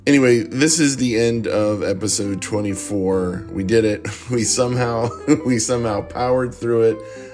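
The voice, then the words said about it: Strained, hoarse, fading voice. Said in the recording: “If you've heard my voice during this episode, you know I'm losing my voice. In fact, I think over the last few episodes, my voice has sounded awful.”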